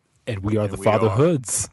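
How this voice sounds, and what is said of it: Deep, smooth, seductive voice. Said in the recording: “doing the Barry White at the end ... my sweet and sexy voice”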